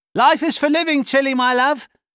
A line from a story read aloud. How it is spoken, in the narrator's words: shouted her dad